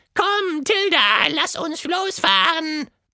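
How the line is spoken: Roaring. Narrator (German): brüllte es

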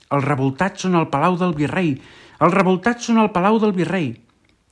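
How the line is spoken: Shouted. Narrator (Catalan): algú va cridar

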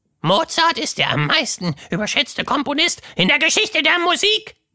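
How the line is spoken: Shrieking. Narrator (German): kreischte

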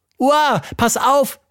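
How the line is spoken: Shouted. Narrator (German): rief Tilda

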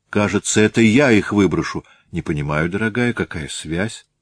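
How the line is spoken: Calmer question after deep breath. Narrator (Russian): Ольга Михайловна сделала глубокий вздох и спросила более спокойно

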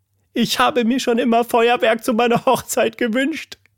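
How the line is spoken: Sobbing. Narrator (German): schluchzte

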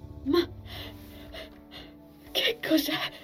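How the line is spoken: Breathless, broken voice. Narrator (Italian): ansimò Envil con voce rotta

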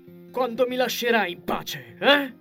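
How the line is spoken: Yell. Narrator (Italian): urlò Sirio

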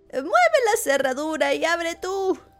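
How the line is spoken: Grandmother shouted. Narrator (Spanish): gritó la abuelita

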